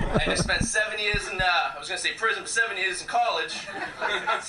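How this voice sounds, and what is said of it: Usual voice. Nothing is said of it.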